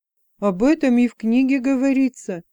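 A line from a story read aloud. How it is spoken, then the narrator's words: Joyful agreement. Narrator (Russian): радостно подтвердил Айн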